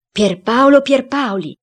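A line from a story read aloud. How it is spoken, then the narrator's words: Cook exclaiming. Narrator (Italian): Il cuoco esclamò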